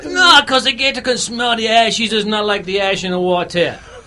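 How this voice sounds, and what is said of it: Put-on accent of unclear origin. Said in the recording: “I still don't know whether it's Cajun, Latin, Japanese ... This is an excellent accent. An accent of what I have no clue.”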